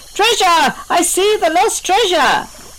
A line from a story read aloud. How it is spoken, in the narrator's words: Diva bursts with excitement and hollers